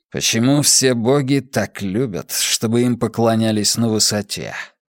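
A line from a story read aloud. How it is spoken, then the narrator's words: Grumbling. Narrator (Russian): проворчал Каз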